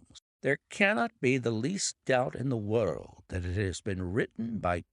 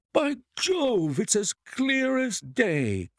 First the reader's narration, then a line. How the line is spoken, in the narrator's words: cried the colonel